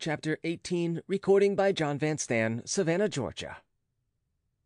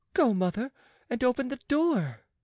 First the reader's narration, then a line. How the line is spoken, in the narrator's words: cried Oliva